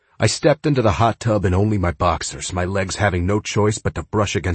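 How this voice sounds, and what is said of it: Usual voice. Nothing is said of it.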